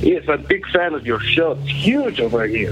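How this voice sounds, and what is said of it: Russian-sounding accent. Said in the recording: “It sounded like you might be Russian.”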